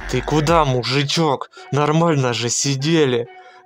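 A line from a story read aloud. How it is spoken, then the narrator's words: Old man's hellish yell. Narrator (Russian): Травяной дед, увидев, что повозка тронулась, адским голосом завопил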